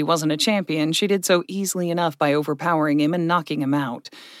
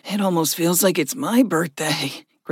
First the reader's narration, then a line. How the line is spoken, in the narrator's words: Gregory chuckled weakly